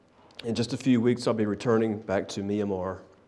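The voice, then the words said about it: Emotional, choked-up voice. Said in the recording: “just a little emotional.”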